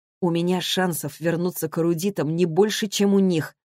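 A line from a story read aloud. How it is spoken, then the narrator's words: Plain. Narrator (Russian): говорит он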